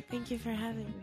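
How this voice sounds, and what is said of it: Shy, sexy-sounding voice. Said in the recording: “Why'd you get all shy? ... Sexy voice.”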